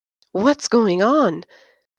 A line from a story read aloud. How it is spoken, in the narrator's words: Anne hissed at Josh